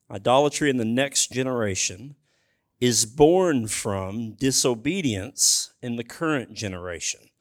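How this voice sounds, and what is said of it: Reads slowly and deliberately. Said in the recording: “I'll read it slowly.”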